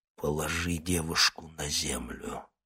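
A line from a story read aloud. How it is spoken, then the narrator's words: Muffled growl. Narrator (Russian): глухо прорычал он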